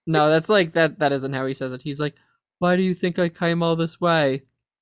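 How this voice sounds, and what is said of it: Flat monotone character voice. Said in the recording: “There's like a certain like monotone aspect to it.”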